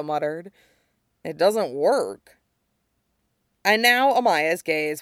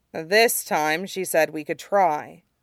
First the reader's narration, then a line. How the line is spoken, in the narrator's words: Zuko said firmly